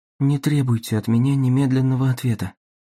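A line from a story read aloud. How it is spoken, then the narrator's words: Quiet speech. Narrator (Russian): негромко сказала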